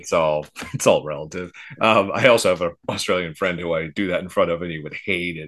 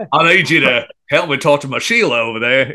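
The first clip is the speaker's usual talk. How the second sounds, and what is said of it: Fairly good put-on Australian accent. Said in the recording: “you do kind of a good Australian accent”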